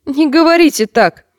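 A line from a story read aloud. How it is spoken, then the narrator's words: Sudden flushed shout. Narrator (Russian): закричал вдруг Томан, весь покраснев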